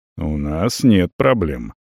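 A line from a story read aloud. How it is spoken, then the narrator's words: Calm, indifferent. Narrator (Russian): абсолютно спокойно и где-то даже безразлично реагирует наш полковник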